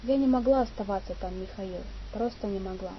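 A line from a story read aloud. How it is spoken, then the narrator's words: Added with faint sigh. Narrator (Russian): Слабо вздохнув, добавила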